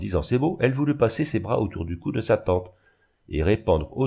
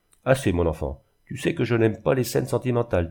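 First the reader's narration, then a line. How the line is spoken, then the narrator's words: Curt, dry. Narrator (French): dit-elle sèchement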